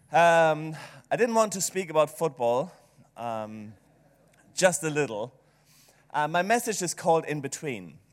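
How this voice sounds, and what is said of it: German-accented English. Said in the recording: “maybe it's the German accent”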